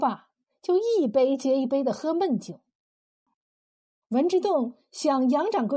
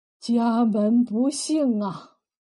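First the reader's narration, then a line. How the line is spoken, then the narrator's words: Sad sigh. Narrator (Chinese): 杨掌柜眼圈一红，叹了口气说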